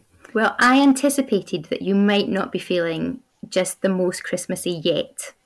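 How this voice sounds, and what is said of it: Speaker's own regional accent. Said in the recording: “my accent is throwing people off there”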